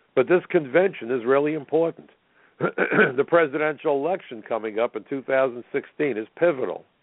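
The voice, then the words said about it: Raspy voice. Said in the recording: “You can hear my raspy voice.”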